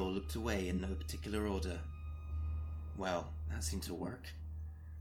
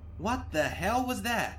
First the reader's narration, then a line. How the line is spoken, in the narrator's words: Shiny Suit screeched